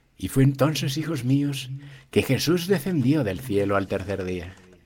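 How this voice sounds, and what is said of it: Solemn old-movie Jesus voice. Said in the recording (Spanish): “hacer la voz de Jesús de película mexicana? Ah, sí, como de película de Semana Santa.”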